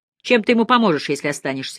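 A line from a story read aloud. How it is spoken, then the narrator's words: Snide question. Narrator (Russian): ехидно спросил сержант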